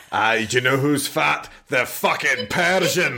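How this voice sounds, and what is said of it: Put-on gruff movie-character accent. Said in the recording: “when you do that accent, I can't tell if you're doing Gerard Butler or CrossFit Shrek”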